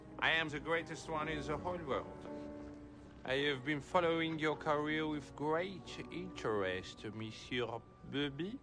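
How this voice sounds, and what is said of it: Exaggerated put-on French accent. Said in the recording (French): “I can't understand a word you said the whole time. ... you sound like a dog with peanut butter on the roof of your mouth. ... I think what you are hearing is my accent. I am French.”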